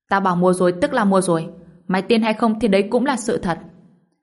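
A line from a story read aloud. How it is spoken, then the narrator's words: Angry shout. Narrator (Vietnamese): Thôi Thừa Chí tức tối lắm, bèn quát lên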